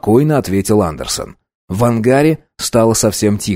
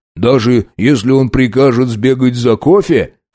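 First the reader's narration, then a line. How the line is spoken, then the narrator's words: Snorting. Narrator (Russian): хмыкнул Хиллари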